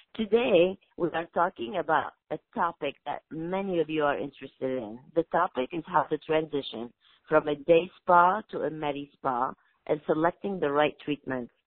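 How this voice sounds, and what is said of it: Hoarse voice, sore throat. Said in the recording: “forgive my voice today. I have a little sore throat.”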